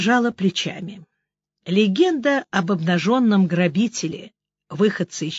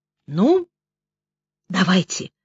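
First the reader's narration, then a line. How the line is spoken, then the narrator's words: Whispered. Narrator (Russian): отчего-то шепотом произнесла Лиза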